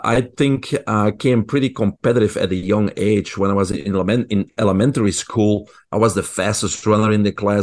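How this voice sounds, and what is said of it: Belgian accent. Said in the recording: “I grew up in Belgium. People probably can hear my accent.”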